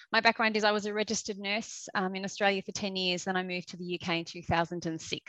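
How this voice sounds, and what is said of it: Australian accent. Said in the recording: “I'm an Australian, which you will hear very quickly with the accent.”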